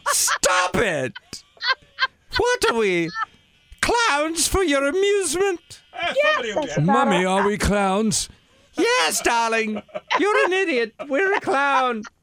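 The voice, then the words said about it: Bad put-on posh British accent. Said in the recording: “royal family accent, a British accent ... He's absolutely terrible at it.”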